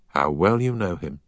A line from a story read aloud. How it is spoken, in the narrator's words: said the schoolmaster with a sigh